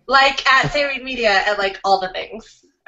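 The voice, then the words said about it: Fake Californian valley-girl accent. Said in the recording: “where'd your accent go? ... California. Oh, that was fake. ... This is like totally like my real like accent”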